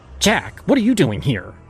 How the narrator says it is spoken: She snapped, her voice carrying the sharpness of someone who no longer cared to hide their disdain

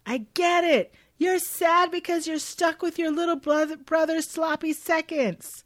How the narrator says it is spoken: Warren, the dickhead, yells after Noah

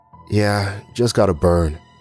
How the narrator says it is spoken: I sighed

